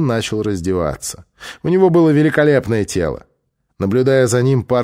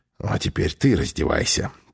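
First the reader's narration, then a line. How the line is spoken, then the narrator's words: Whisper. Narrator (Russian): прошептал Пол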